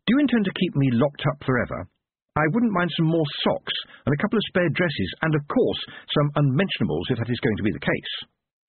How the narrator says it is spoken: said sharply

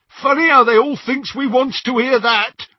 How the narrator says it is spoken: jeered Scabia out of the shadows

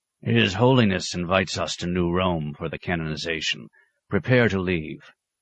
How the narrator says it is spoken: Dom Arkos, now withered by age and close to dotage, wheezed

